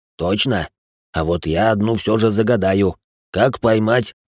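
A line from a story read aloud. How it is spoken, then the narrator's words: Growling. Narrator (Russian): Рычащий Гринривер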